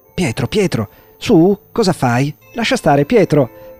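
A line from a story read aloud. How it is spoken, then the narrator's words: Anxious mother's shout. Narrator (Italian): gridò la mamma temendo che Giovanni si arrabbiasse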